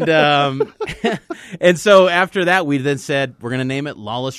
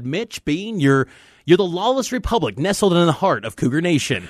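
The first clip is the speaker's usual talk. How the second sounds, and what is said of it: Good imitation of another person's voice. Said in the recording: “That's a great, great impression”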